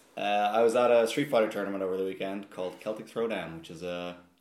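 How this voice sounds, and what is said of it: Husky, worn-out hoarse voice. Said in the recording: “my voice is destroyed ... it's the husky ... why is your voice in bits?”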